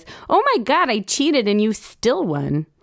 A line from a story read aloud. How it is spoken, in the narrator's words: Ben smiles and hisses lispily through his gappy teeth and laughs and cries